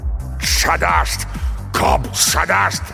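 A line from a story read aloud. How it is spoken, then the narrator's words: Barked. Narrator (Russian): рявкнул Горм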